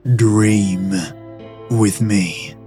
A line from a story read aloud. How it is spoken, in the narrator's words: he says, and his voice is so full of command